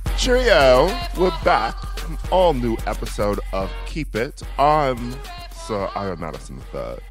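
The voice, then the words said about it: Put-on British accent. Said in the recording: “This is an all British episode. ... We gotta bring the accents back, girls.”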